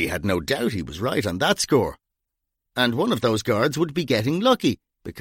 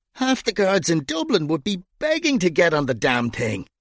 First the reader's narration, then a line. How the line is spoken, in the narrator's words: Gringo had pleaded